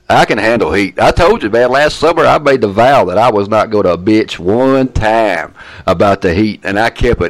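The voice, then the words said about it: Southern US accent. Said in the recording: “they notice my accent, of course. And I said, I'm from Atlanta.”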